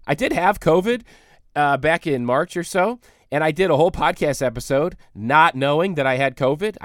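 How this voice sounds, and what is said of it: Hoarse voice from a cold. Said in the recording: “losing my voice because I have a cold.”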